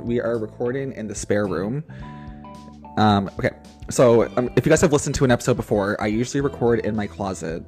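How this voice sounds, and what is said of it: Slightly hoarse voice. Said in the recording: “I'm starting to get a little bit hoarse in my voice, and also the sneezing and the coughing”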